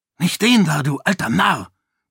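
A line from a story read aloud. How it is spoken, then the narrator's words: Hissed. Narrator (German): zischte er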